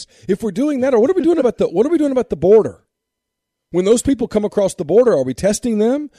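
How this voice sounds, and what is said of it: Raised, angry voice. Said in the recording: “I'm sorry for raising my voice, but I'm really pissed off at this”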